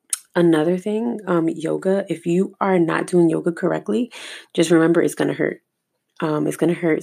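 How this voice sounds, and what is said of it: Slightly hoarse, scratchy dry voice. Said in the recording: “I feel like my throat's a little scratchy and dry. a little hoarse”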